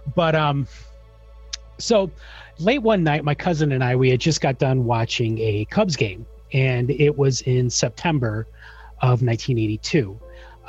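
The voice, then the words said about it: Chicago accent. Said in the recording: “I am very much a Chicago native. ... constantly making fun of my accent.”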